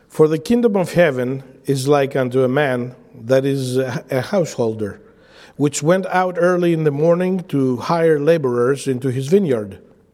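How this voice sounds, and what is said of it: Greek-accented English. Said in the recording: “my accent might not say what is in the word. I usually preach in Greek”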